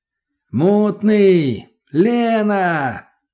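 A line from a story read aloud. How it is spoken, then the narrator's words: Shouting. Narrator (Russian): закричал я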